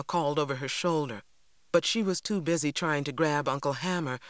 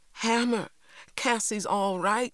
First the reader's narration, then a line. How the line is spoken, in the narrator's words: cried